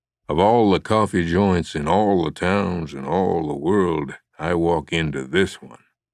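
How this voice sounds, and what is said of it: Humphrey Bogart impression. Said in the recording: “put on his best Bogart impersonation”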